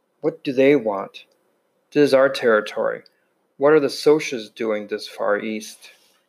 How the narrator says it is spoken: I muttered

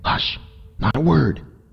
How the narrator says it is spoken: he whispered

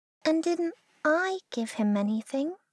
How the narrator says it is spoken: asked Christopher Robin sadly

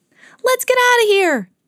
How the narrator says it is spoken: cried Mickey

